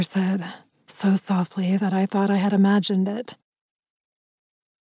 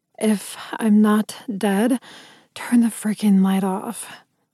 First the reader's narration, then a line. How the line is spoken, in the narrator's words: I groaned